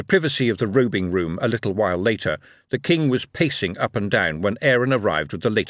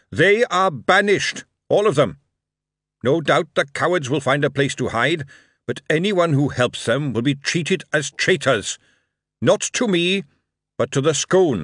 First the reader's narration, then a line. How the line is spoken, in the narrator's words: He raised his voice and announced to the crowd